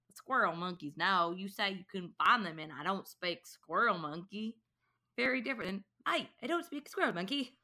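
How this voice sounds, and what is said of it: Put-on Southern American accent. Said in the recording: “if you say the same thing in a Southern accent, it takes on a whole different meaning.”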